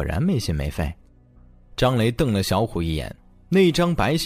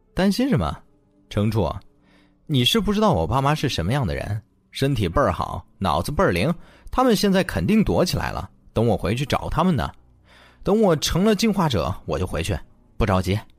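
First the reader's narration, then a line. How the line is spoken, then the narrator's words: Laughing, mock scolding. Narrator (Chinese): 程泽笑骂道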